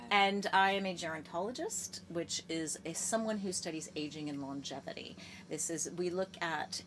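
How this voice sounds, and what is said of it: American accent. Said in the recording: “if you haven't heard from the accent already, I'm American, and I'm American-Ukrainian”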